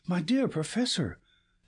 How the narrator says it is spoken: cried

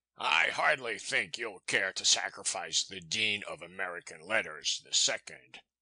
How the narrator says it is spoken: he sneered

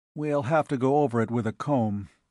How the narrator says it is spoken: he said

